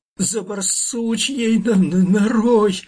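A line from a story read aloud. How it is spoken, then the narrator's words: Shrieking through pain. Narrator (Russian): завизжал Фир, превозмогая боль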